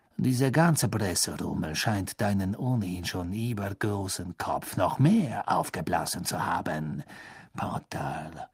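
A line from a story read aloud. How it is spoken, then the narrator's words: Quiet. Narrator (German): sagte Snape leise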